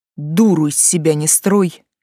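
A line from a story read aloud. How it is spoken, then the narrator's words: Angry growl. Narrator (Russian): пугает меня злобным рычанием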